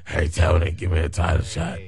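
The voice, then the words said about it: Imitates another person's voice. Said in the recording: “this is my impersonation of Nyla Rose asking for a title shot.”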